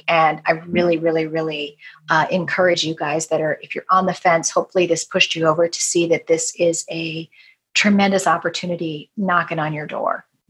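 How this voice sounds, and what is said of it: Hoarse, strained voice. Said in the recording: “I'm completely losing my voice after doing this. I'm toast”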